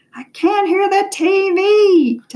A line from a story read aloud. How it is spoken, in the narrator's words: Ty hollered